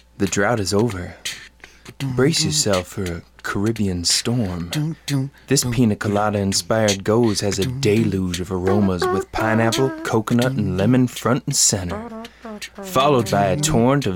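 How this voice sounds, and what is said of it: Sexy, seductive reading voice. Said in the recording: “Can I reread this in a sexy voice?”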